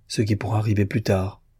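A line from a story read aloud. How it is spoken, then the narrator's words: Broken voice. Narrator (French): dit-elle d'une voix brisée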